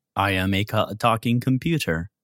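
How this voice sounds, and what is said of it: Robotic, mechanical voice. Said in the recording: “You sounded like a robot.”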